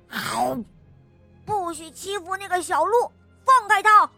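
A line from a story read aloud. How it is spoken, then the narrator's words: Loud shout. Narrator (Chinese): 特鲁鲁大声的喊道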